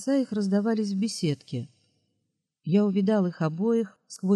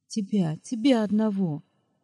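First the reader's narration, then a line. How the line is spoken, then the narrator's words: Repeated through sobs. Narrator (Russian): повторила она, с судорожными рыданиями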